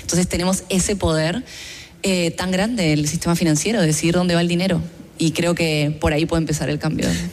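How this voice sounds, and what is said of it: Accent from another continent. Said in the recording (Spanish): “Como pueden ver por mi acento, vengo de otro continente”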